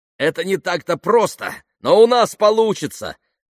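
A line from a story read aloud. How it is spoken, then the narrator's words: Shouting over plane noise. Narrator (Russian): крикнул он, пытаясь перекрыть гул приближавшихся самолетов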